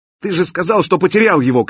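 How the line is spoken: Shouted. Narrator (Russian): крикнул Кирилл

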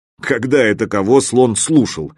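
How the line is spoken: Snort from corner. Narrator (Russian): хмыкнули в углу

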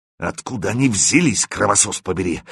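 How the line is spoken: Hoarse question. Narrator (Russian): хрипло спросил командир

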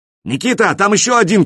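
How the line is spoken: Shouted. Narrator (Russian): крикнул

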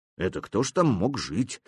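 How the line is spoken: Quiet question. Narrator (Russian): тихо спросил Никита

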